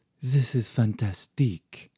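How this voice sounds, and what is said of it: Put-on French accent. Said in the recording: “affecting a French accent”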